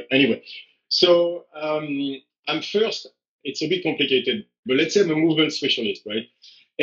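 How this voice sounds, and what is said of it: French accent in English. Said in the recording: “you can hear I'm French ... I cannot change the accent”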